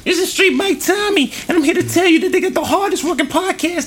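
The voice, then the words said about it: High-pitched character voice. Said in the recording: “I started off with a deep voice, went to the high voice, but I forgot Street Bike Tommy got the high voice.”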